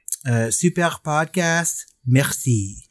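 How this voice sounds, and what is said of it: Put-on French accent. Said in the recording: “let me see if I can do a French accent”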